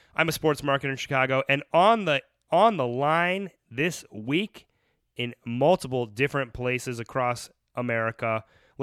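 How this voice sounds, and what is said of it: Sick-sounding voice. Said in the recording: “sick this week, but plowing through. Forgive my voice.”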